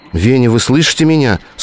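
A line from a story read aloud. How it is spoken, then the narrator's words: Frightened question. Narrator (Russian): спросила Лена испуганно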